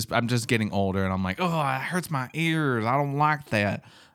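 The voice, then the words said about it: Southern old man voice. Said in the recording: “I don't know why I have a southern accent. ... Southern old man, yeah.”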